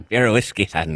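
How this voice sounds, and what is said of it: Funny put-on Irish accent. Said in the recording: “You got a good Irish accent. ... It's a funny Irish accent. ... It's an impression of a play-by-play guy, a soccer play-by-play guy”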